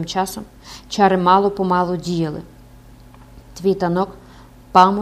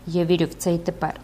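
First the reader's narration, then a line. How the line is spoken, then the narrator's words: Priest, coldly. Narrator (Ukrainian): священик холодно додав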